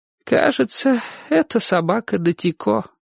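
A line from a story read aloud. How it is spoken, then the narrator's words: Sad. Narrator (Russian): сказала она грустно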